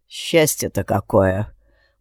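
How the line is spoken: Gloomy confirmation. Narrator (Russian): мрачно подтвердил Алекс

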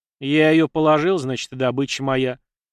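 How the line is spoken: Snapped. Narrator (Russian): огрызнулся парень

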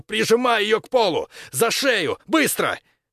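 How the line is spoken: Shouting. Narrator (Russian): Максимилиан крикнул другу

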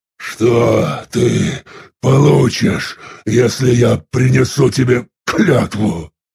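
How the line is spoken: Strained, forced out. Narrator (Russian): Наконец выдавил он

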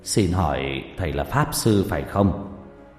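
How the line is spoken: Lowered voice, old man. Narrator (Vietnamese): Ông ngoại liền hạ giọng

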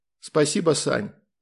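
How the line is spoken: Calm, grown-up reply. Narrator (Russian): ответил он спокойно и по-взрослому

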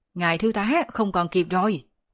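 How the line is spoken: Soldier shouting. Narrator (Vietnamese): Một binh sĩ hét lên

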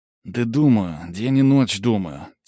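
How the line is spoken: Sighing. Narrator (Russian): Тимоха вздохнул

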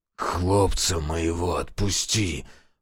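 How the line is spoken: Pained hoarse rasp. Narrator (Russian): Прохрипел тот, морщась

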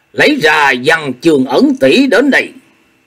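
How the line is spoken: Raised voice. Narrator (Vietnamese): Chu Lễ cất cao giọng nói

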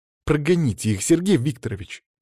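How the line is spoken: Exclamation, woman. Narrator (Russian): воскликнула Вероника

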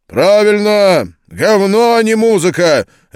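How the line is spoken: Barked over the phone. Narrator (Russian): рявкнул в трубке чей-то голос

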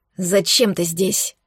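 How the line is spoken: Angry question. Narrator (Russian): спросила зло

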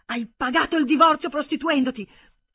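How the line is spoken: Shouted, voice feels not his. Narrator (Italian): Sembrava a Hermann che non fosse la sua voce a gridare

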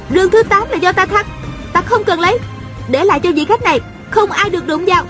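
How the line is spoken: Shouting. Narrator (Vietnamese): A Cửu la lên

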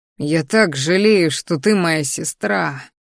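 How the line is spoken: Bitter exhale. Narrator (Russian): горько выдохнул

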